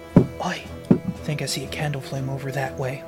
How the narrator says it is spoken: I think he's going to quietly tiptoe up to Amos and go

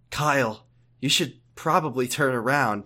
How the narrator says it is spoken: Jesse said, while barely disguising her amusement

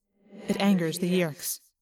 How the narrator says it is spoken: he added grimly

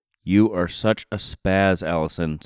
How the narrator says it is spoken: said her friend

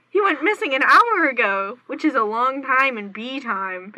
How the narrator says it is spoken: Barry exclaimed

